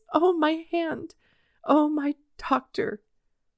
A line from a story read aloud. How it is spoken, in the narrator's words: he could say as he sobbed in despair